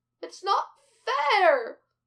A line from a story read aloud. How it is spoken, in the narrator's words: Glinda wails into the tabletop